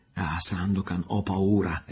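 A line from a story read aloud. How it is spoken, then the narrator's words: Young girl crying out, weeping. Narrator (Italian): esclamò la giovanetta piangendo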